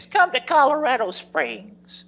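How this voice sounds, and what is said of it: Impression of an old lady. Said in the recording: “the woman from who played that role in Stephen King's novel when it was done a miniseries? ... the old lady in Colorado Springs ... That's a good impression.”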